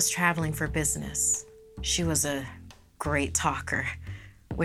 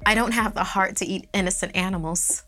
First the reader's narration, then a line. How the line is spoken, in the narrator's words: laughed